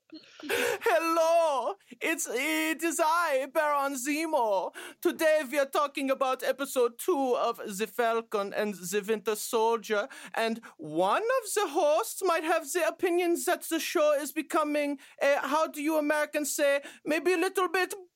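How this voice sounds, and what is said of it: Put-on German accent. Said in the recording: “your German accent's so much better than mine ... I'll do this a closing German accent, oh, and you do this a opening.”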